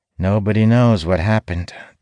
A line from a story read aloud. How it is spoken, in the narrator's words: Talon replies, his tone unusually somber